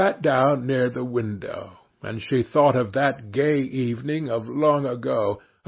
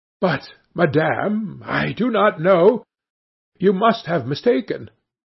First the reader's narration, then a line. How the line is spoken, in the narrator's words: The other, astonished to be familiarly addressed by this plain goodwife, stammered